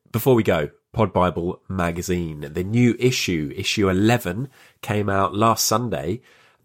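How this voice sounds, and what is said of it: Congested, sniffly voice. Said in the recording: “As you may have heard, I have a little bit of a cold”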